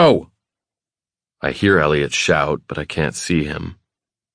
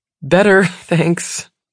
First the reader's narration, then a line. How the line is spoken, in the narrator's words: she says, laughing